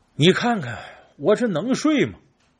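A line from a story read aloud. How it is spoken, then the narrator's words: Sighing. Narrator (Chinese): 哎 叹口气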